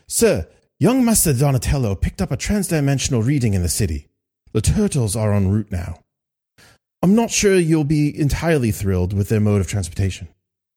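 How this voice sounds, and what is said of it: Bad put-on British accent. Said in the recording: “my bad British accent without any sort of voice modulation whatsoever”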